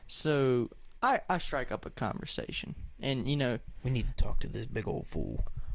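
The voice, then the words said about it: Thick Southern accent. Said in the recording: “I have a pretty thick Southern accent, and it fluctuates depending on who I'm talking to”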